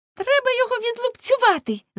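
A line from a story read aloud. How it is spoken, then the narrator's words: Girls shouting together. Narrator (Ukrainian): закричали дівчата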